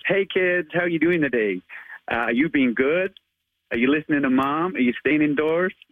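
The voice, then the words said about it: Put-on American accent. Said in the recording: “give us your American accent as Spider-Man ... I'm not the best at accents, but I do try.”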